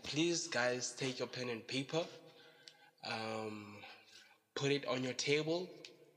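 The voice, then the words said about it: Unclear, flu-affected voice. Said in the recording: “my voice is not super cool, it's not clear ... I have flu”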